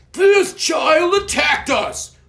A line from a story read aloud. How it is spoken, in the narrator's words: roared Murkle